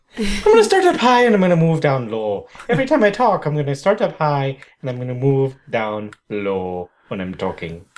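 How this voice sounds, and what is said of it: Put-on Irish accent. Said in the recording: “I'll talk in an Irish accent for the rest of the episode.”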